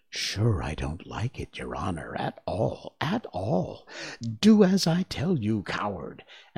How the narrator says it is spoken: whispers

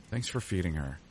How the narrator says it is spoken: she said

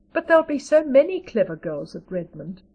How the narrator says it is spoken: sighed Diana

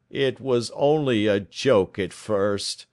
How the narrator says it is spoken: groaned our visitor

